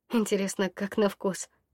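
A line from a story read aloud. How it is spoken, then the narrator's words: Quiet question. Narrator (Russian): Негромко спросила я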